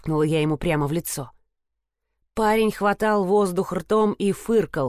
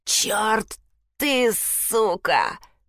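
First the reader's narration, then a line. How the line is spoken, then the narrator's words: Hiss. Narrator (Russian): прошипел он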